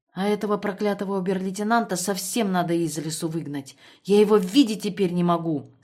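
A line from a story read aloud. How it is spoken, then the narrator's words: Angry. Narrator (Russian): сказала сердито Тамара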